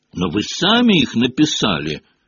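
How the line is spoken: Shout. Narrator (Russian): закричал Гарри

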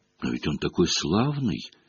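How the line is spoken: Timid objection. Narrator (Russian): робко возразила Ханна

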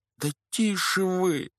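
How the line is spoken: Pleading. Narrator (Russian): взмолился Гарри

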